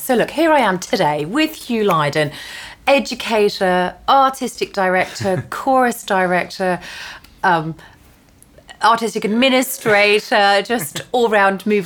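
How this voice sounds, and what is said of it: English accent. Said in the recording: “You're clearly English like me, spot the accent.”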